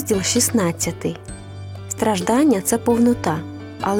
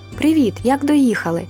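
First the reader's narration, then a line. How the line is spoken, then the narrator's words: Joyful greeting. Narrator (Ukrainian): радісно віталися ми з Юлечками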